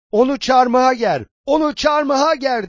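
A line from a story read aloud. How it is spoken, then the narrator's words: Crowd shouting repeatedly. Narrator (Turkish): diye bağırışıp durdular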